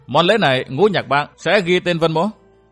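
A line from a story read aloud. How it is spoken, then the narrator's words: Cold sneering. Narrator (Vietnamese): Vân Thiên Nhạc cười khẩy, lạnh lùng nói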